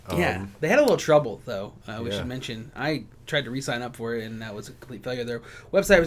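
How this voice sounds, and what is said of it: Usual voice. Nothing is said of it.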